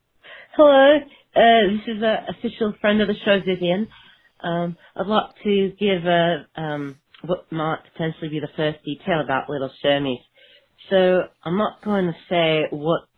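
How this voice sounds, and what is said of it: Put-on English accent. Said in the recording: “speaking in an English accent”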